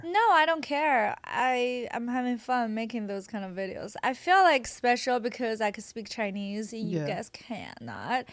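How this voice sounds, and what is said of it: Non-native English accent. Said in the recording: “your accent, people probably find it attractive ... It's not your first language. No, I actually think your English is really good”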